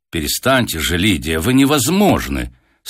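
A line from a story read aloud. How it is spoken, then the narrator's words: Stern. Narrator (Russian): строго заметила Татьяна Аркадьевна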